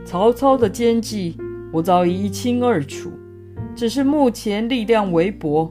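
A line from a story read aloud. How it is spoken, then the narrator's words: Smiling. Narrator (Chinese): 孔明笑笑地说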